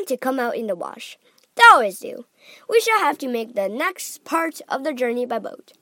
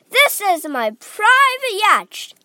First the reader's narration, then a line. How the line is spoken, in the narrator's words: cried Mr